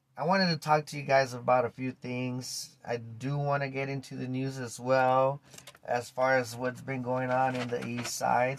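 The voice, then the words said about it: Weak, recovering voice after laryngitis. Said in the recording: “my voice is coming back. I don't know if you could tell, but I am feeling a little better... that laryngitis”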